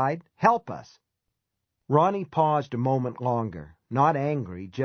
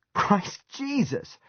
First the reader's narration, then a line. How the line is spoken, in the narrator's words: Tony cried, disgusted and still half laughing